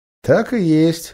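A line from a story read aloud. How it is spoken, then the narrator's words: Snorting. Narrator (Russian): хмыкнул тот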